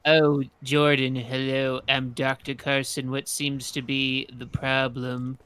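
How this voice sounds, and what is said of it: Imitates another person's voice. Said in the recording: “Do a Ben Carson impression.”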